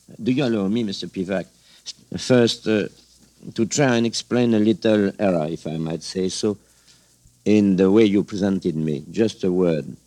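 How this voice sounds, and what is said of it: Strong French accent in English. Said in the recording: “the way the French people choose their English teachers when they listen to me with my awful accent”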